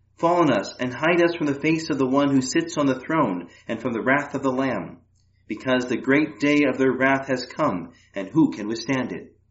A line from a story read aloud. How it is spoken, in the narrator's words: They cried out to the mountains and the rocks